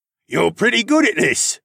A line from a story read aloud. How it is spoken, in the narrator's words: Thass called out